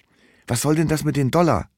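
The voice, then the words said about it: Whispering. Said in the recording (German): “Flüstere ich.”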